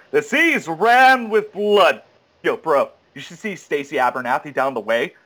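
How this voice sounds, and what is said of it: Douchebag bro voice. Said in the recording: “in a douchebag voice”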